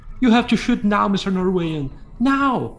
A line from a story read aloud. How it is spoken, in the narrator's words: shouted